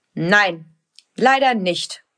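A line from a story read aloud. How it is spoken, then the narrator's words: Stern father, plain. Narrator (German): sagt ihr Papa, der manchmal ziemlich streng sein kann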